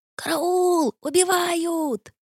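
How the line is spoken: Loud yell. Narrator (Russian): завопил

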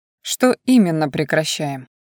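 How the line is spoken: Unperturbed inquiry. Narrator (Russian): Невозмутимым тоном поинтересовался

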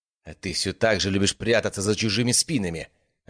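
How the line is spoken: Snapping retort. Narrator (Russian): огрызнулась Зара

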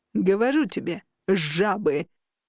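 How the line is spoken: Booming laughter. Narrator (Russian): гулко расхохотался этот

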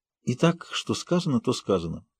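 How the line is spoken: Sighed. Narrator (Russian): вздохнула Рита

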